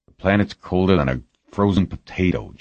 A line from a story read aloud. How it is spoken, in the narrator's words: Jamie grumbled